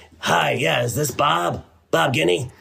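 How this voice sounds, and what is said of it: Lowered-pitch imitation of a woman. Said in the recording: “that's how her voice sounded in my head. Anyway, by the way, I use that same voice when I impersonate my wife ... why did your voice go down when you impersonate me?”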